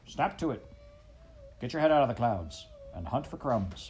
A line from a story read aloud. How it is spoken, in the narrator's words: barked Despereaux's father